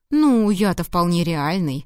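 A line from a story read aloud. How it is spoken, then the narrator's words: Snort. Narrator (Russian): хмыкнул Даррен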